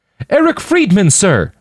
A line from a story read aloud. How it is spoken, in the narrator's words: the young man cried back